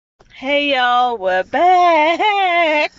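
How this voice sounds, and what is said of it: Bad put-on southern accent. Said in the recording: “Wow, that was a bad southern accent... I thought you were like imitating a llama or something.”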